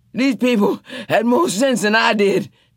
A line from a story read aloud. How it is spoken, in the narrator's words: Tea Cake said as they dropped to the floor and lay there panting